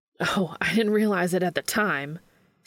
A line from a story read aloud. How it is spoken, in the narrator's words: Sam spat